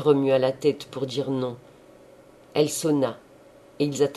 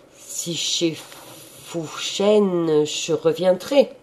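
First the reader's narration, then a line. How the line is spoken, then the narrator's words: Stammering. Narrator (French): Il balbutia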